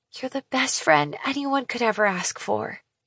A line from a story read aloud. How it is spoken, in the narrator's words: I whisper in her ear